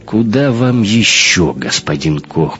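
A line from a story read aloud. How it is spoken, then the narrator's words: Muttering. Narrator (Russian): пробурчал бармиксер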